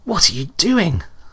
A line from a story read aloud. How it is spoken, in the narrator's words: Wilmot cried